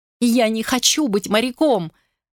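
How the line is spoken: Sobbing. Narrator (Russian): рыдал Кристофер

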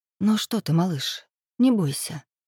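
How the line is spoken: Gentle whisper. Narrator (Russian): зашептала она в теплое лохматое ухо

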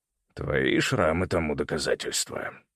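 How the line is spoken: Gruff grumble. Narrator (Russian): буркнул дядя

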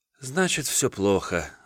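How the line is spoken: Sighing. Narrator (Russian): вздохнула та

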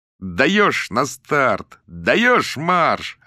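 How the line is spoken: Joyful yell. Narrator (Russian): радостно завопил Ленчик

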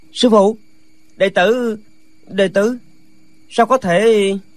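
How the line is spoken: Terrified stammering. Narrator (Vietnamese): Lệnh Hồ Xung kinh hãi, bất giác toàn thân run bần bật, chàng lắp bắp

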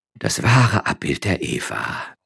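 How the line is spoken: Sighing. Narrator (German): seufzte der Franziskanerprior

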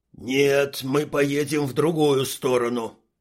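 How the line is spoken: Growling. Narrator (Russian): рыкнул Квас

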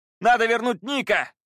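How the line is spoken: Shouting. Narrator (Russian): крикнул Пит

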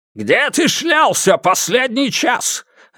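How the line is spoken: Barked from doorway. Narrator (Russian): рявкнул он с порога

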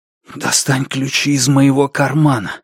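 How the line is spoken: Whispered request. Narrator (Russian): шепотом попросил я Андреа

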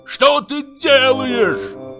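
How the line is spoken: Yelling. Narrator (Russian): заорал Бутронца

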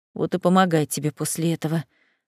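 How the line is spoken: Low grumble. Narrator (Russian): вполголоса проворчал брюнет

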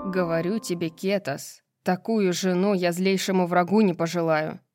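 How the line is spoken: Angry declaration. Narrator (Russian): сердито заявил Тариону Флинн

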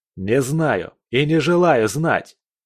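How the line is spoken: Almost shouting. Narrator (Russian): Свершенец почти кричал

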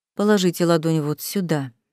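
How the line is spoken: Soft speech. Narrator (Russian): мягко проговорил Хоршаф

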